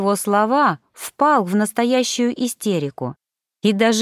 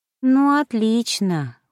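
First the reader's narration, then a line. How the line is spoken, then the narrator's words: Glum drawl. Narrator (Russian): уныло протянула я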